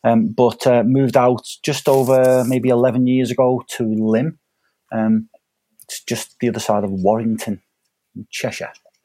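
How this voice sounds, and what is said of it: Cheshire regional English accent. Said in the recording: “he's picked up um, the accent”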